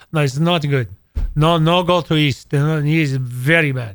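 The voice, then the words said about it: Attempted thick Hungarian accent. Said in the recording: “in very thick, I can't do a Hungarian accent well”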